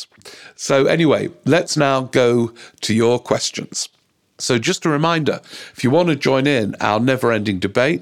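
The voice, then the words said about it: Croaky voice. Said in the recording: “apologize for my voice ... the voice is a bit croaky”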